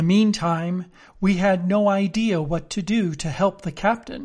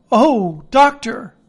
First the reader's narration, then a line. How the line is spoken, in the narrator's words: we cried